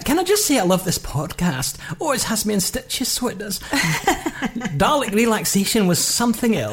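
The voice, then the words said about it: Put-on Scottish old lady voice. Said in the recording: “I feel compelled to put on the Scottish accent. ... you've done it in that accent like a little old lady”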